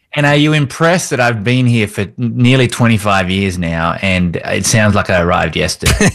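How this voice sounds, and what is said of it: Strong, unmellowed non-American accent. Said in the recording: “I love the accent. ... That accent of yours has not mellowed at all”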